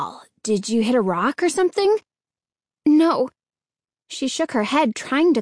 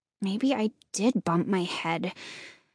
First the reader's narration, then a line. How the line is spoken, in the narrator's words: Hannah muttered